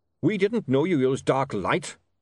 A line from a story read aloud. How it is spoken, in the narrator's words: snapped Goodmountain